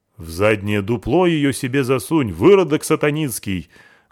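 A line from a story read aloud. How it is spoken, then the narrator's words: Loud guffawing. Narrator (Russian): громко захохотал предводитель братства рыбака архистратик Евлампий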